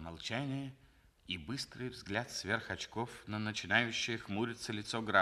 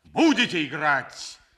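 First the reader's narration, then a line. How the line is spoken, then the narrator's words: Loud shout. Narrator (Russian): громким голосом крикнул граф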